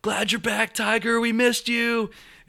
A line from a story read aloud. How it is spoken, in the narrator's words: this woman in the front row yells